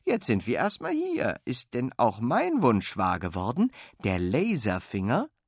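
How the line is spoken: Cheerful. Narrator (German): sagt Fine fröhlich

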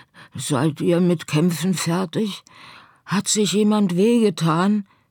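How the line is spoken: Anxious question. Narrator (German): fragte sie ängstlich

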